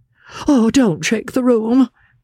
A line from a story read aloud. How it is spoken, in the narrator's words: cried Mr